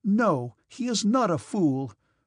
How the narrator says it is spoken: replied Natasha indignantly and seriously

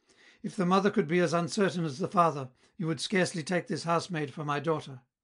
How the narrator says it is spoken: she exclaimed with bitterness

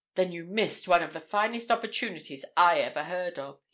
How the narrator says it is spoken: he said half sneeringly

